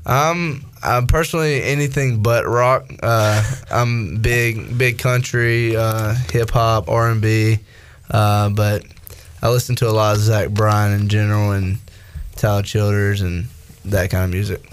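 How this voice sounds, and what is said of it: Slight country twang. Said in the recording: “You got the voice for it. You got a bit of a country twang there.”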